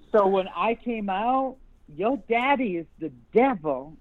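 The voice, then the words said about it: Southern American accent. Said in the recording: “my Southern accent came out there. I did it too long.”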